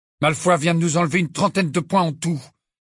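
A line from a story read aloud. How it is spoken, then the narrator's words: Furious. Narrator (French): dit Harry d'un ton furieux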